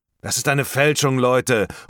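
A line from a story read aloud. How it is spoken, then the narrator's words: Someone calling out. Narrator (German): ruft jemand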